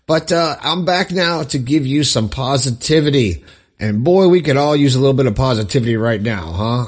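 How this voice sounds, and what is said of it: Slightly raspy, strained voice. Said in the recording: “I lost my voice. As you can hear, it's a little bit raspy”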